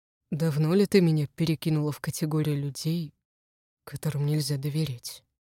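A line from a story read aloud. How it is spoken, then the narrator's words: Husband's quiet question. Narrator (Russian): Тихо спрашивает муж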